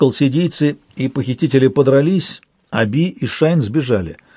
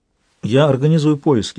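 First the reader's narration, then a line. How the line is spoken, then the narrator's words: Calm reply. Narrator (Russian): спокойно ответила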